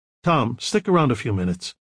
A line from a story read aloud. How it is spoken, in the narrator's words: Michael said sharply